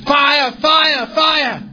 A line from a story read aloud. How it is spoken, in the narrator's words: someone in the back shouted